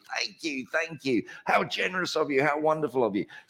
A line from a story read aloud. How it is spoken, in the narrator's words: the more he shouted